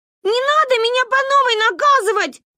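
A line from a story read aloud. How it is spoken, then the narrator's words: Yelling sister. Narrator (Russian): орала сестра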